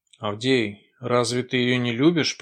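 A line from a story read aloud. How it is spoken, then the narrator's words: Mutter. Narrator (Russian): пробормотал он наконец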